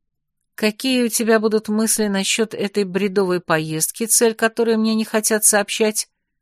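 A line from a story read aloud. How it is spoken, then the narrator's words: Plain. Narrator (Russian): спросила я Марви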